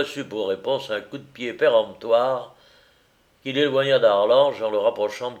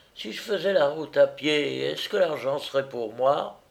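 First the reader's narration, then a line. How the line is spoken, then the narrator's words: Insinuating question. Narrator (French): demanda Jacquet d'une voix insinuante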